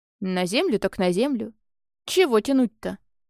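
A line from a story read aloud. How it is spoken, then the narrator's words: Wry snort. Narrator (Russian): Я хмыкнул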